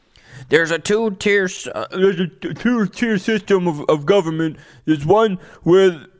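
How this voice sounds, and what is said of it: Impression of Eric Swalwell. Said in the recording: “my Eric Swalwell impression”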